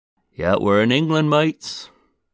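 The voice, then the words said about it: Weak put-on English accent. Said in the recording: “my lazy, non-existent English accent. It's brilliant.”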